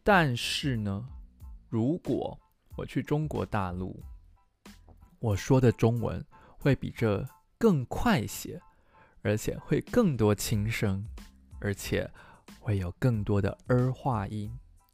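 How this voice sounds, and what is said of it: Standard Taiwanese-accented Mandarin. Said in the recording (Chinese): “我现在说的是标准台湾。国语，呃，对，就是有标准台湾口音的国语”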